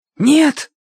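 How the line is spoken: Hoarse shout. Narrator (Russian): хрипло выкрикнул Тенька

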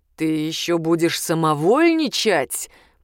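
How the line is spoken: Growl. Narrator (Russian): прорычал курьер

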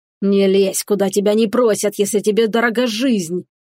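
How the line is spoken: Bearded man's growl. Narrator (Russian): прорычал бородач

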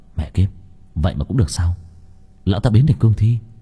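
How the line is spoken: Muttering. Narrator (Vietnamese): Long Vân lẩm bẩm

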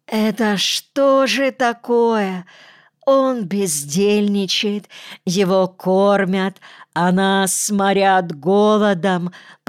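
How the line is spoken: Moaning complaint. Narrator (Russian): простонал Девяткин

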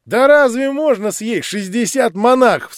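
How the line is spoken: Laughing crowd. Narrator (Russian): смеялись кругом

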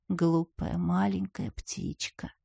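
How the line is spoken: Whisper. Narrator (Russian): прошептал он

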